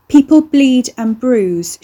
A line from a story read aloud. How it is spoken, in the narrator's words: she shouted